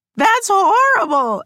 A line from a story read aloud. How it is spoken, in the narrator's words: He kept loudly repeating